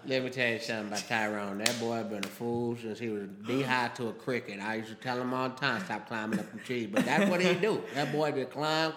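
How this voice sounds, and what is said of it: Old woman voice, mumbling through dentures. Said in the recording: “giving her that voice. Like, she's trying to keep her dentures in there”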